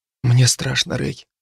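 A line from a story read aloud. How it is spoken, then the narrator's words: Whisper. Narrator (Russian): прошептала Джо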